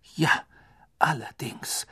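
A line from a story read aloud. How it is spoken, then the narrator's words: Heavy voice. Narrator (German): sagte Fudge mit schwerer Stimme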